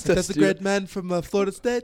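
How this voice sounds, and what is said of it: Put-on British accent. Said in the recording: “talking your British accent real quick because he asked”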